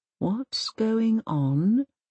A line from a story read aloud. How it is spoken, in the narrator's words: whispers Mum